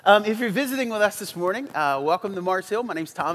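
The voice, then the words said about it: Congested, stuffy-sounding voice. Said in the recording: “if I sound like my face is full of stuff, it's because it is”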